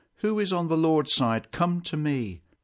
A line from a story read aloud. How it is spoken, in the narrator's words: Moses cried out